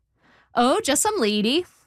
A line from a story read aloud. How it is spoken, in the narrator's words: I said